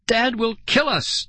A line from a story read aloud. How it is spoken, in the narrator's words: Nicole cried